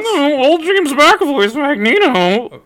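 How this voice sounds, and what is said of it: Imitates another person's voice. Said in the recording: “that was my impression of everyone on the internet whenever any person that's in that movie is brought up”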